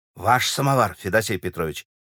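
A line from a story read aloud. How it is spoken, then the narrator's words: Admiring crowd whispering. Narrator (Russian): зашептала восхищенная публика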